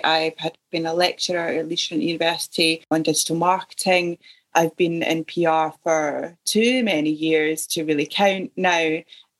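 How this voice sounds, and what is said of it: Scottish accent. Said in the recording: “I'm picking up that you don't come from the Chiltern Hills like me. Where am I picking the accent up from? ... Originally, I'm from Ayrshire in Scotland.”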